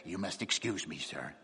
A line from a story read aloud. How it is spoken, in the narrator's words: he said in a hoarse whisper